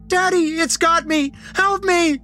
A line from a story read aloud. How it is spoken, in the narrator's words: The blankets in my arms were screaming